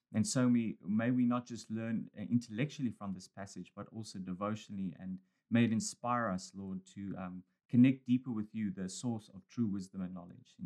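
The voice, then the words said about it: South African accent, slightly Australian. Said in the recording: “the South African accent ... I've got this Australian South African accent now”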